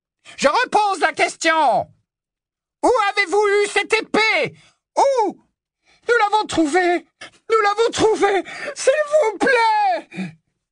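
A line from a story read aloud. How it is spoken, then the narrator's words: Scream. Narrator (French): hurla Hermione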